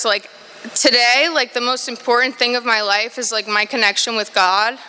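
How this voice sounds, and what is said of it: Emotional, choked-up speech. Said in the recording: “I don't know why I'm getting emotional, sorry.”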